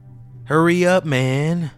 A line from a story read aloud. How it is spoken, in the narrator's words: a slurred SoCal voice said